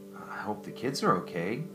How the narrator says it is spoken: she muttered to Jennifer

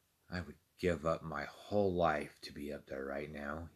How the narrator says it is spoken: whispered to no one but himself

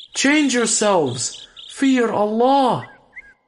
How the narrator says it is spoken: the prophet shouted

